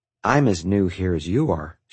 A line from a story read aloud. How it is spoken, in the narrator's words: she said